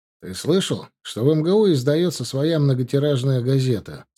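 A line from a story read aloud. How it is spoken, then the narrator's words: Plain. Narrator (Russian): спросил он меня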